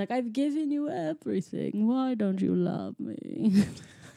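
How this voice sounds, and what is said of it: Imitates another person's voice. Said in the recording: “That was a great David Bowie impression.”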